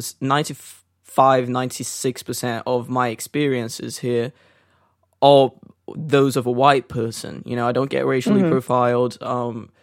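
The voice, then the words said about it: Slightly non-British accent. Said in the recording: “my accent, which is not mm-hmm. perfectly British apparently”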